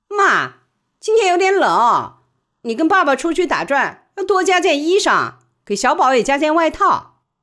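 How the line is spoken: Calling out. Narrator (Chinese): 喊了一声

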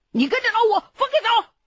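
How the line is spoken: Calling out. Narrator (Chinese): 大哥喊了我一句

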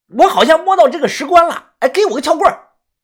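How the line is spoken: Shouting. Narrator (Chinese): 他冲着我大喊

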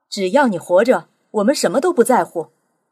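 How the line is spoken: Impulsive cry. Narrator (Chinese): 水手潘克洛夫情不自禁地喊道

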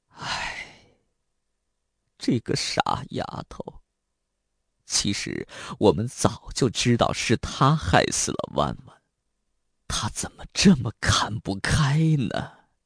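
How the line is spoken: Slow weary sigh, old father. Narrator (Chinese): 秦延平的父亲沉默了半晌，然后悠悠的叹了口气

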